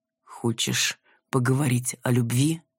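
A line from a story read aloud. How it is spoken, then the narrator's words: Slow, deliberate, measured. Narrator (Russian): произнес раздельно и медленно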